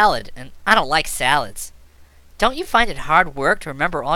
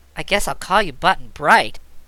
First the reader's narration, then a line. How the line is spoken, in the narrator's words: said Trot, sighing